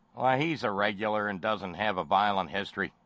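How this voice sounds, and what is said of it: Poor imitation Chicago accent. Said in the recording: “my Chicago accent's terrible”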